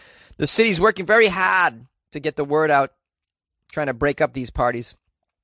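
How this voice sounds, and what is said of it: Usual voice. Nothing is said of it.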